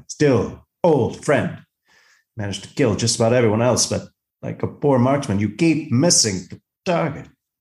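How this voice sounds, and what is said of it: Captain Kirk impression. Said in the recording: “doing my Captain Kirk impression”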